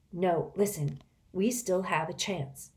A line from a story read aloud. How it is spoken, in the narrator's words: said Reynie